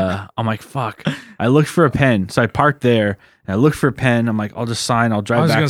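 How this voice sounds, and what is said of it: Usual voice. Nothing is said of it.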